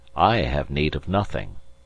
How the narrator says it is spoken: replied the gentleman coldly

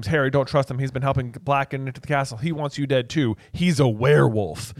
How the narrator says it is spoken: Hermione screams

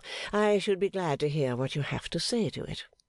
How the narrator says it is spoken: Gowan, not quite so sweetly as before

